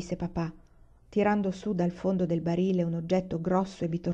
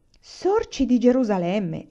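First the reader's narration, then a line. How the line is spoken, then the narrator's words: Exclaimed. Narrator (Italian): esclamò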